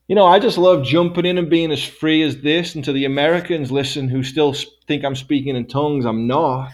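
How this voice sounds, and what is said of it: English accent. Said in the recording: “watching my accent, like, what's he doing? ... English people”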